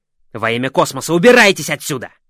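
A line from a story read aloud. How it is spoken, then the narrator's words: Roared. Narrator (Russian): взревел он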